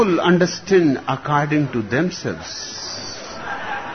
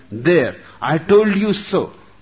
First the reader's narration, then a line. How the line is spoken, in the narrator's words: the first hippie exclaimed